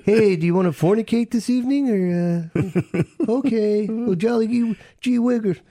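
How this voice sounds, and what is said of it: Soft-spoken creepy Ed Gein voice. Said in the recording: “my Ed Gein voice ... So soft-spoken ... Such a creep.”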